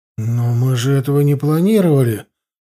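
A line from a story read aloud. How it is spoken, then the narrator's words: Confused. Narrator (Russian): растерянно сказал Корнел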